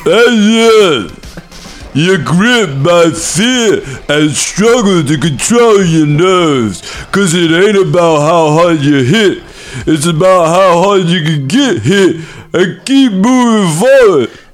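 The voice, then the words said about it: Imitates another person's voice. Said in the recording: “doing a Sylvester Stallone impression”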